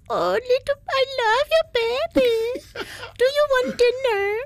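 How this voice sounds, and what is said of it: Baby voice. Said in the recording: “in a baby voice”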